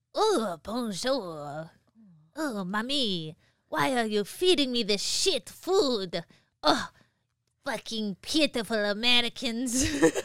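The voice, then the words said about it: Put-on French accent, dog character. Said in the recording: “voices for my dogs. So he's French... That's perfect.”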